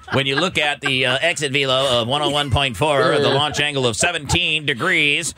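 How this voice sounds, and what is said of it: Robotic computer voice. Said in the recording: “Why does every nerd talk like that? ... I was doing a computer. ... I wasn't doing a nerd voice. That was a computer voice.”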